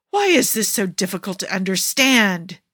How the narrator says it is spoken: Jafar roars

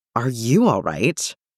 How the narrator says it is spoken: John snorted

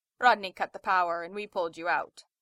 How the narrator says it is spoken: Zelenka said

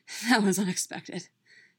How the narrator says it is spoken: Bucky said in between panting breaths

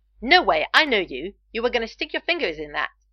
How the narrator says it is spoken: snapped

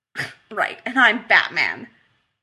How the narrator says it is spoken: Rodney said immediately, snorting

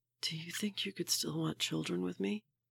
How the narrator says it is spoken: he whispers

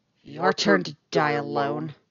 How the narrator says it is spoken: she snarls

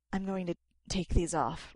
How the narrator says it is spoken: Rodney gasps

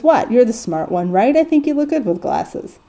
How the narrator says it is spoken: Dean laughs and says

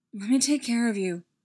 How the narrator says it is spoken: Steve pleaded

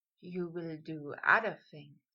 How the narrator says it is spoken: Draco breathed, voice stroking Potter

